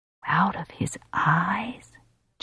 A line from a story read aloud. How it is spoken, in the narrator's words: Johnny whispers, fascinated and horrified and a little awed